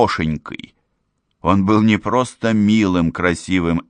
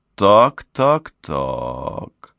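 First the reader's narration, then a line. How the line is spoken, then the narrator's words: Drawl. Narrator (Russian): протянул он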